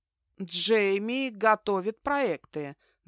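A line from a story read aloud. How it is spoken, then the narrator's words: Deliberately slow repetition. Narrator (Russian): нарочито медленно повторил Стефан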